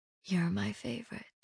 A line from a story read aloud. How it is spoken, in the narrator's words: The warmth of her voice as she whispered